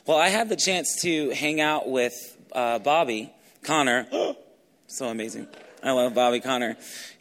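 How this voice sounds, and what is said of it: Hoarse, strained voice. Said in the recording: “I was screaming so much that my voice is kind of gone. So if I start going through a coughing spell”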